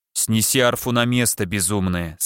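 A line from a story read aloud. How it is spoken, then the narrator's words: Stern. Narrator (Russian): сказал строго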